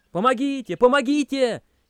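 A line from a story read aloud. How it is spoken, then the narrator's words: Wild screaming. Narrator (Russian): дико заорал я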